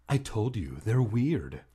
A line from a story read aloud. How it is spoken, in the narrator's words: Hannah said sharply